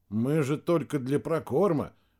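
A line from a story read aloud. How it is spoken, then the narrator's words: Muttering. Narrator (Russian): пробормотал капитан Барышников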